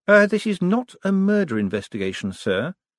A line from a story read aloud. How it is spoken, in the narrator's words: said the sergeant calmly